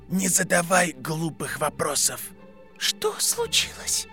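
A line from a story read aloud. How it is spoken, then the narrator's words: Whispered question. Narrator (Russian): Шепотом спросила Беллатриса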